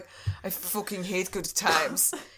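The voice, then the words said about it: Put-on Norwegian accent. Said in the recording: “That's my Norway accent, by the way.”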